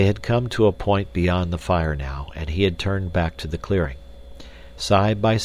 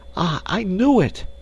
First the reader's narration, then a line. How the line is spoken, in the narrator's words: she exclaimed